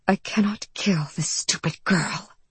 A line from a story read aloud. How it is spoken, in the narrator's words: Orchid whispered in his ear